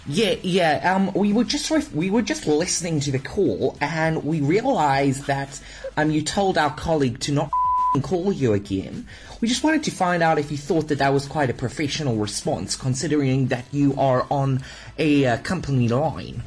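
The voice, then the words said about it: Convincing put-on New Zealand accent. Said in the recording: “That was actually a pretty good accent ... You passed as a New Zealander.”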